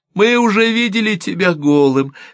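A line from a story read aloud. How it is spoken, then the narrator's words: Answering through laughter. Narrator (Russian): сквозь смех ответила Лайлани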